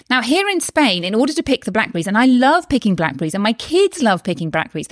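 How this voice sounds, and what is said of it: British accent. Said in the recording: “I'm from the UK, which you may be able to tell from my accent”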